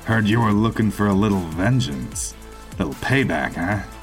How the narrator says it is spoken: He chuckled again

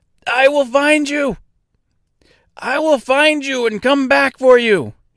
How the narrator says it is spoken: cried out

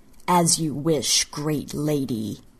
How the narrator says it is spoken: he sneered

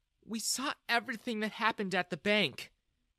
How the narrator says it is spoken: Jessica said sadly

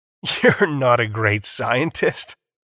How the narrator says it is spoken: Foster said with a mocking laugh

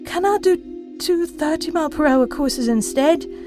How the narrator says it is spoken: he begged

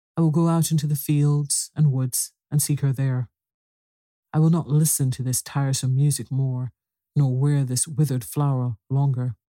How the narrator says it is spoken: turned sadly from them all, saying

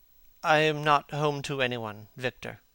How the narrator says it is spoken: he said with a sigh

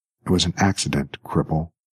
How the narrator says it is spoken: whispered the woman in a stricken voice

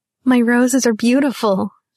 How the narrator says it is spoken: she laughed

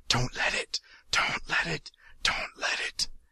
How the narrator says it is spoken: whispering in his ear, whispering frantically

